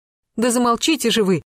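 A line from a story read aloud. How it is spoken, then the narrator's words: Sharp shout. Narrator (Russian): прикрикнула на Лисину Добронравова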